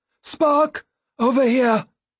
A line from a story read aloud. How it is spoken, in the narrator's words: he cried